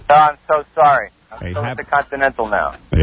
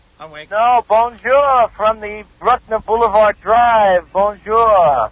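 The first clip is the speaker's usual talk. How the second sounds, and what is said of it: Put-on French accent. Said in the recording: “Your French accent confused us.”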